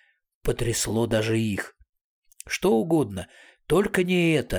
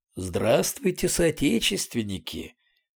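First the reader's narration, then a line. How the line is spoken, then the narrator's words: Pleasant velvety voice. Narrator (Russian): произнес приятным бархатистым голосом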